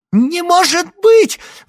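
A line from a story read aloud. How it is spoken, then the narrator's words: Shrill squeal. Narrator (Russian): взвизгнула вторая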